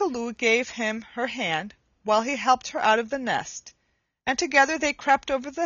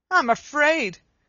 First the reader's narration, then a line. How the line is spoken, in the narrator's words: cried Coochie Kooloo